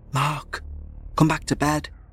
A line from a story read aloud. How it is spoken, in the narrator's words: I whispered